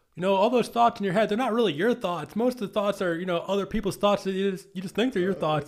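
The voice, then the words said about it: Imitates another person's voice. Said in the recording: “you're impersonating him perfectly right now”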